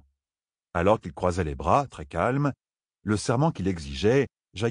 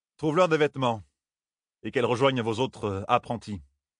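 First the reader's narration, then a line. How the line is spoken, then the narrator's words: Distracted tone. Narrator (French): dit-il d'un ton distrait à Sorilea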